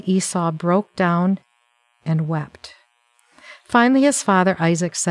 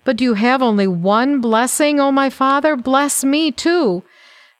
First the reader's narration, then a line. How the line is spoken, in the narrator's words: Esau pleaded